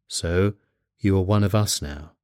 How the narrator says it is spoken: Irving speaking very gravely said

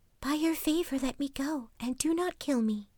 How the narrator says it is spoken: She whispered softly

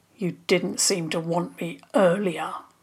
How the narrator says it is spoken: he mumbled

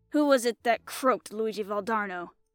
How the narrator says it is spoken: asked the Italian hoarsely

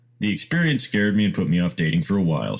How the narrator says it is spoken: she said

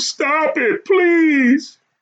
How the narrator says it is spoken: She sobbed as she begged

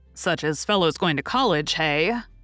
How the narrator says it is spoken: cut in Laurie with a suggestive laugh

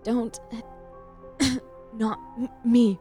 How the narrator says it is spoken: it rasped

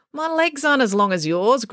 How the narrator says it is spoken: grumbled Finn

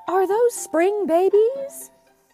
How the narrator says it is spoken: he gasped

